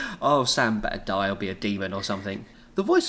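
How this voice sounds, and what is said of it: Usual voice. Nothing is said of it.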